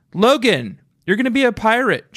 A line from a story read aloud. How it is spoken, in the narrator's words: yelled